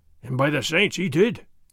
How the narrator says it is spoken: Sergeant Gonzalez growled

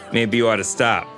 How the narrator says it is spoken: I said

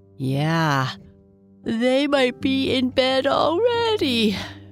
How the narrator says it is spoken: she said with a yawn

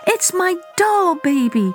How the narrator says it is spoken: she cried

